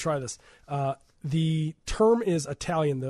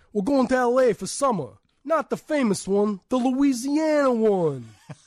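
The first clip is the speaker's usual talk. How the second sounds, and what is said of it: Put-on Chicago Italian accent. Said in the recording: “The accent is Italian ... the Italians here in Chicago, talking about the pizza pie ... That's my Italian ... That's really good.”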